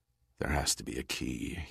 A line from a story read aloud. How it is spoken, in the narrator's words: said in a low voice